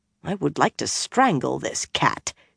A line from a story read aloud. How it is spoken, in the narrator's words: she muttered